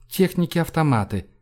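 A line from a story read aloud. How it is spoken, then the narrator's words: Calm reply. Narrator (Russian): спокойно ответил Кило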